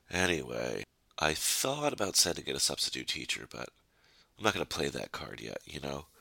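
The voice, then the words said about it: Sick, under-the-weather voice. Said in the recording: “under the weather ... You could probably tell from my voice. ... who likes being sick”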